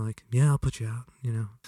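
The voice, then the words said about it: Mellow imitation of another person. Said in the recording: “that was a great imitation ... It's a pretty mellow guy.”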